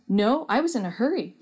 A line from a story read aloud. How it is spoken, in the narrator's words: Derek answered